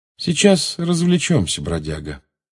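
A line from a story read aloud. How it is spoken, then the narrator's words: Calm. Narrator (Russian): спокойно сказал Джеймс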